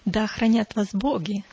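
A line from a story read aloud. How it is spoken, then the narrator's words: Plain. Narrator (Russian): сказал я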